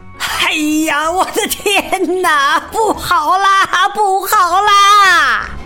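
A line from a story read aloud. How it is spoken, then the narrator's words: Heart-rending scream. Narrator (Chinese): 卢斯佩洛撕心裂肺的喊叫声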